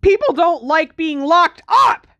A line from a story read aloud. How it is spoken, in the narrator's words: Harry said furiously